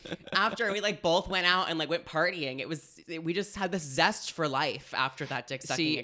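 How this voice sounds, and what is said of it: Usual voice. Nothing is said of it.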